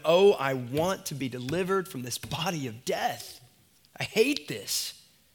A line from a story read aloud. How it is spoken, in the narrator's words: Like Paul in Romans 7, you groan